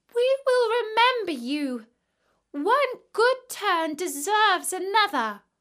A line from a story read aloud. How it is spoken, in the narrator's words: They cried